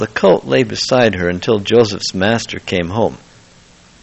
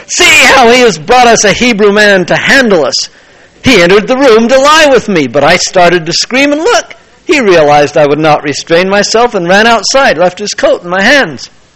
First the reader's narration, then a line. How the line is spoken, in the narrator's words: she screamed for the servants